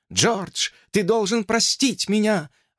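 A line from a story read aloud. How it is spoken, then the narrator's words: Sobbing. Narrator (Russian): рыдала она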